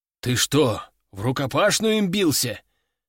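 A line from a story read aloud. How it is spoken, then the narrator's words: Exclaiming buffalo. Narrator (Russian): воскликнул буйвол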